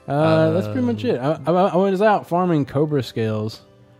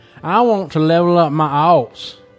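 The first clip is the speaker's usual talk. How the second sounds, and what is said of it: Heavy put-on country accent. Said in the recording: “heavy country accent ... That was my heavy country accent”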